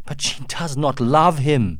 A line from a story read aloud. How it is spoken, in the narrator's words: cried Uncas